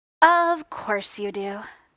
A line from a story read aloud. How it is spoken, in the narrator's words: Tony sighed